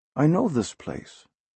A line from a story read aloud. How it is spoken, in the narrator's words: the lad mumbled